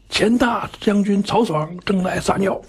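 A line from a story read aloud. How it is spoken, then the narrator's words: Shout. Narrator (Chinese): 上面就喊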